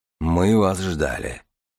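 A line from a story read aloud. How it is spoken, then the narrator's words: Muffled, hollow voice. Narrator (Russian): глухо проговорил Дар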